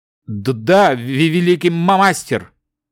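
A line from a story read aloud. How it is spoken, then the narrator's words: Trembling, stuttering. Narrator (Russian): дрожа и заикаясь, ответил вспотевший эльф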